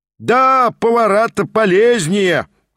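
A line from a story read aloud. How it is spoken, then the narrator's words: Shouted. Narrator (Russian): прокричал тот самый семинарист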